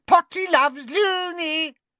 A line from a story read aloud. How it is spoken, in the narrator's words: cackling and shrieking